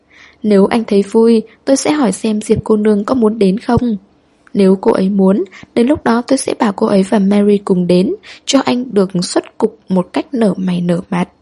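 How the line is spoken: Laughing. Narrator (Vietnamese): Hoài Trân bật cười

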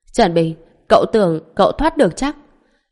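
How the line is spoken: Man roaring. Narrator (Vietnamese): Ông ta gầm lên

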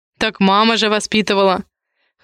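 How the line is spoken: Wry grunt. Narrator (Russian): хмыкнул Дэм

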